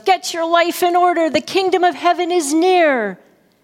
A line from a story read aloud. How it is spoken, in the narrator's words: John the Baptist yells